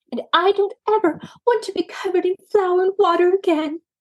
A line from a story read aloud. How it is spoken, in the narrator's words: exclaimed Maisie